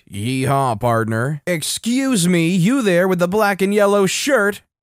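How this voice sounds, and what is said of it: Heavy southern accent. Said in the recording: “in a heavy southern accent”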